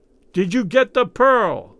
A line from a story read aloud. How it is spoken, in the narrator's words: He yelled in Raoul's ear